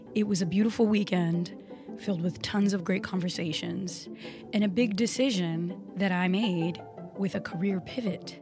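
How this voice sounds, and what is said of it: Slightly raspy voice. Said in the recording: “as you can tell, my voice is a little raspy today”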